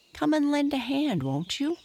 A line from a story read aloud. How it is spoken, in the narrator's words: cried